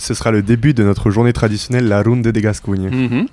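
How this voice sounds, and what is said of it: Pleasant regional French accent. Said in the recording (French): “parce que tu le dis bien ... bel accent, hein, bel accent ... Joli. Ouais, très joli.”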